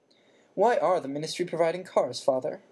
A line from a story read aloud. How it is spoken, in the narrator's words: Percy asked again in a dignified voice